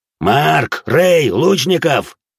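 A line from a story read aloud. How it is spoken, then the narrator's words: Growled. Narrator (Russian): прорычал Зод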